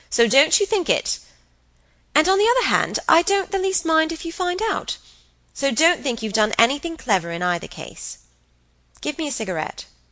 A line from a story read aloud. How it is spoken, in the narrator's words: Helen cried